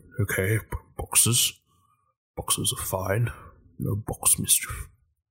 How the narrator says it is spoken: he's kind of mumbling to himself

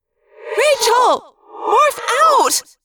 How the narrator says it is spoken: Cassie screamed

